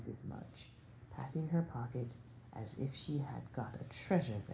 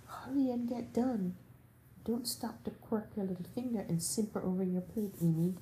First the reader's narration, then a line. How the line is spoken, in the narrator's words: cried Jo, choking in her tea, in her haste